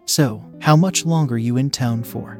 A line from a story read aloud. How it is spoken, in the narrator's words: I asked